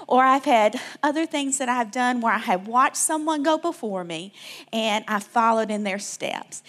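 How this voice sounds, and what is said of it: Southern US accent, Alabama. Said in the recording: “you hear this accent, I can't help it, y'all. I'm from Alabama, South Alabama.”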